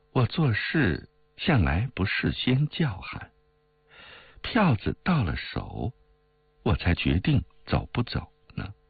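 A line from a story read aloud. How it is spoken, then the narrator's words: Laughing. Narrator (Chinese): 冰如笑道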